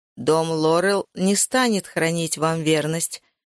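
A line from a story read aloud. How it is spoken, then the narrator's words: Plain. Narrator (Russian): сказал Зерит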